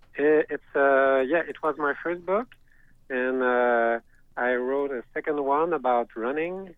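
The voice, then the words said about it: French Canadian accent. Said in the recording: “love your accent. ... French Canadian.”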